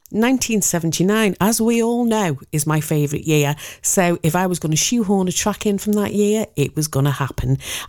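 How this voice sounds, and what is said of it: Liverpool accent. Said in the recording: “I'm from Liverpool. Who'd have thought it with my cut-glass English accent?”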